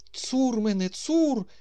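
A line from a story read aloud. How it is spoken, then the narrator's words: Booming operatic bass exclamation. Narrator (Ukrainian): вигукнув шаляпінськими інтонаціями в голосі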